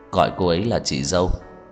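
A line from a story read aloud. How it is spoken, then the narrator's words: Calm, cold voice. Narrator (Vietnamese): giọng nói thản nhiên lạnh lùng của Cố Dư Sinh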